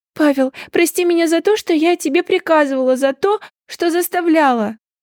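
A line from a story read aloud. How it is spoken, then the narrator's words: Sobbing. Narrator (Russian): Разрыдалась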